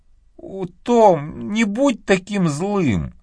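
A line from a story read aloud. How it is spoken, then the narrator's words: Sobbing. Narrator (Russian): всхлипнула Мэгги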